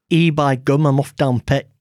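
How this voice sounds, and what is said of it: Stereotypical put-on Yorkshire accent. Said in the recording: “Yorkshire ... Do Yorkshire ... It's a bit stereotypical, isn't it?”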